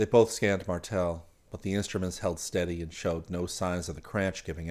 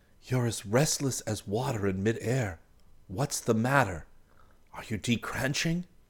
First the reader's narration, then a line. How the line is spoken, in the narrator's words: whispered